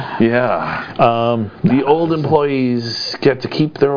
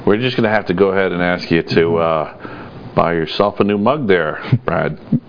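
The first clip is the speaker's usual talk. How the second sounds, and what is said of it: Imitates a movie character's voice. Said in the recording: “That's my office space impression.”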